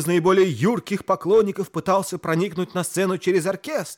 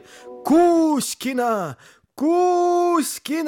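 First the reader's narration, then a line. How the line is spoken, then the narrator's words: Fans shouting. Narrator (Russian): Поклонники актрисы кричали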